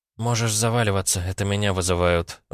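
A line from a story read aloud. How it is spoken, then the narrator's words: Sighing. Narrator (Russian): вздохнула Настя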